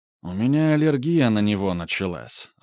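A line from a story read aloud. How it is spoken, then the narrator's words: Sighed. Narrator (Russian): вздохнул Грубер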